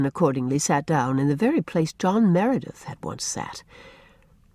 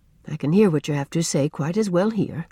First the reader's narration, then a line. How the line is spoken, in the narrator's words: said Rosemary